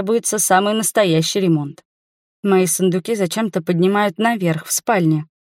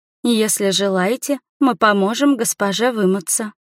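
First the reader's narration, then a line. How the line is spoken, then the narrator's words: Maid's timid offer. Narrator (Russian): робко предлагает одна из служанок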